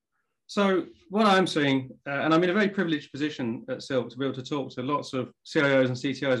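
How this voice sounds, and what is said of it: English accent. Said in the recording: “as you can probably tell from the accent, I'm English”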